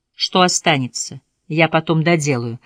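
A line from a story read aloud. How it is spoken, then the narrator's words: Plain. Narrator (Russian): сказала жена доктора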